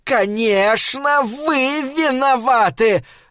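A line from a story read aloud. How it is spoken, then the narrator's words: Yelling. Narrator (Russian): заорала она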